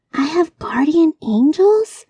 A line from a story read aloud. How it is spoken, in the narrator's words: asked Kayla in a high, squeaky voice